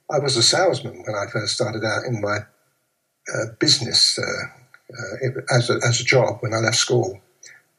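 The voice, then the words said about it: Old London accent. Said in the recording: “my accent and so on, because I was a proper old Londoner kind of accent thing.”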